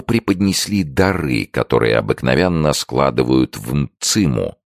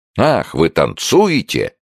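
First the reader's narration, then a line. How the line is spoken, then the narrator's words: Exclaimed. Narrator (Russian): воскликнул Джо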